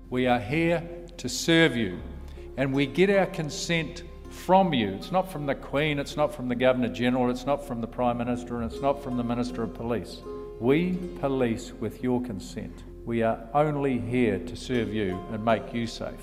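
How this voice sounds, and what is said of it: New Zealand accent. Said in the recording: “As you probably noticed from his accent, Mike Bush is from New Zealand.”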